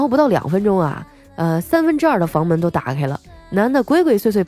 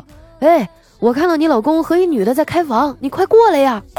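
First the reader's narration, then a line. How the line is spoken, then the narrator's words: Fairly loud fake phone call. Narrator (Chinese): 假装打电话，喊的比较大声，说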